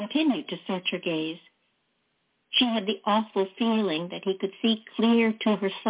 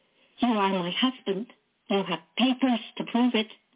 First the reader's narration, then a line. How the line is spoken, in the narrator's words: Not knowing what else to say, she blurted